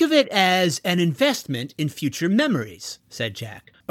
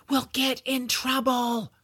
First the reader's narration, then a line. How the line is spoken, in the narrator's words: whispered